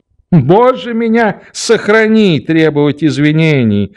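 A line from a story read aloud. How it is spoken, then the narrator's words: Laughing. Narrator (Russian): подхватил он, смеясь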